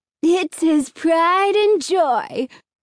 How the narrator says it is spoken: Alan sneered

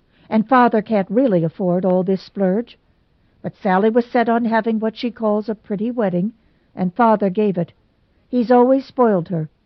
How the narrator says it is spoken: snapped

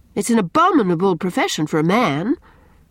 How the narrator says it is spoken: cried Anne rather sharply, afraid

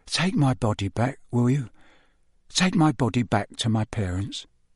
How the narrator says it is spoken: whispered the figure of Cedric

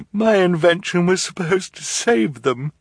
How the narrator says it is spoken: she said mournfully

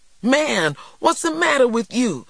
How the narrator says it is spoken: TJ cried

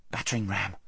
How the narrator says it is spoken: whispered Corin

